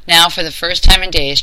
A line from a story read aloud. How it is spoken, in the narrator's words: Charlie laughed